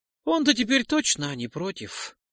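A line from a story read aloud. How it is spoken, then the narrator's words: Sigh. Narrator (Russian): вздохнул напарник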